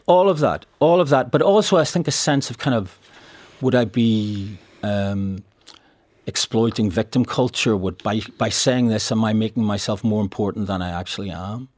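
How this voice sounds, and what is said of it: Northern Irish accent. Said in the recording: “my accent ... actors from the north of this island ... you have that accent”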